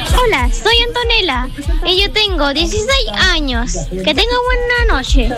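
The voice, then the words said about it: Young girl's childlike voice. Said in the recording (Spanish): “con esa voz de niñita”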